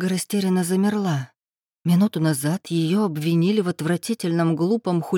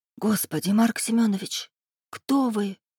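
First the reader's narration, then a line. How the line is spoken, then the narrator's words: Dry-lipped frightened whisper. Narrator (Russian): прошептала она пересохшими губами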